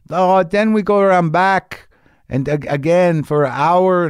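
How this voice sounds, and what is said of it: Vague broad foreign accent. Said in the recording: “that's not a Mexican accent. That's a vague, might be Armenian, not sure, might be Italian ... a broad-based foreigner accent that could apply to many different types of ethnicities”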